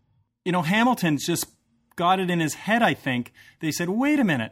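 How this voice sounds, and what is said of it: Usual voice. Nothing is said of it.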